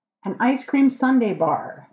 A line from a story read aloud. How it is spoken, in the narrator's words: Ligur shouted back